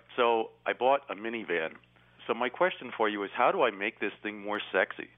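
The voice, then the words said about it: Philadelphia accent. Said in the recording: “maybe it's my Philadelphia accent. ... It's Philadelphia that I'm hearing. ... you sound like one of them Philadelphia lawyers.”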